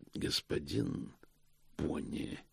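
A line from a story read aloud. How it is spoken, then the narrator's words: Said quietly. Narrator (Russian): тихо сказал Позолот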